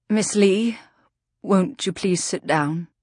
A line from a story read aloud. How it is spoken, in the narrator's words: said a voice shakily, a voice that was and was not Vida Winters